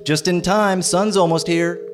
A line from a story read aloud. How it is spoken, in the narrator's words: shouts